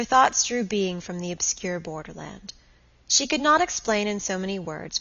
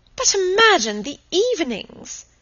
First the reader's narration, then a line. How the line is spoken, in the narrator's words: exclaimed her aunt